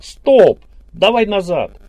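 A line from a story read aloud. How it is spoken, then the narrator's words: Yelling. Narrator (Russian): Белов заорал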